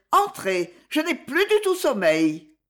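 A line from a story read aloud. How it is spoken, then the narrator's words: Shouted. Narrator (French): cria-t-elle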